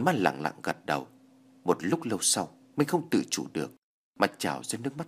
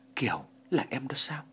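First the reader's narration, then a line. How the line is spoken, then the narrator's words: Soft, quiet. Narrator (Vietnamese): Anh khe khẽ nói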